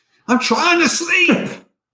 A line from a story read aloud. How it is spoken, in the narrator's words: you hear someone shouting